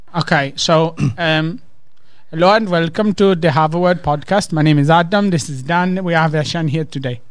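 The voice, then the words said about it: Put-on slow-paced Indian accent. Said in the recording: “my Indian is sort of like slow paced ... do the same sentence in an Indian accent ... That's Indian.”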